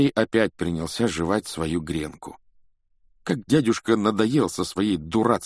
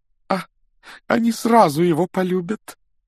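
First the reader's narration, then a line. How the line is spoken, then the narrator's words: Exclamation. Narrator (Russian): воскликнула тетя Петунья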